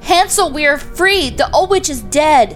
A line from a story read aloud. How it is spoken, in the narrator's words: cried